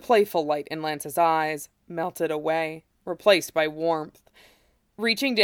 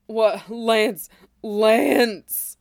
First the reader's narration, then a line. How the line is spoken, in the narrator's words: Shiro groaned